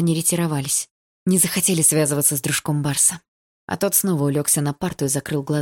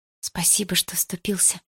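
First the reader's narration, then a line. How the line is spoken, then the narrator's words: Quiet. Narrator (Russian): тихо сказала Дилара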